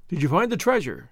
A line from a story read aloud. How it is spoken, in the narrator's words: the brigand asked eagerly